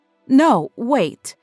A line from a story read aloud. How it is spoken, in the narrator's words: cried the woman at the door